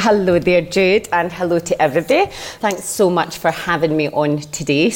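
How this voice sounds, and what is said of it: Glasgow Scottish accent. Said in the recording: “originally from Glasgow, which you'll figure out yourself as soon as you hear her accent.”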